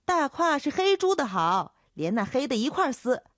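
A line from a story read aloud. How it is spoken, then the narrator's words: Young woman shouting back. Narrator (Chinese): 叫豆蔻的年少姚姐喊回去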